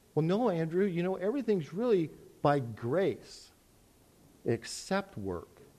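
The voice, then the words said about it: Sarcastic mocking delivery. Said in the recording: “I'm being sarcastic”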